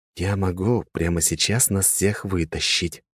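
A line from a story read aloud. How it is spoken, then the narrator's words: Whisper. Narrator (Russian): прошептал я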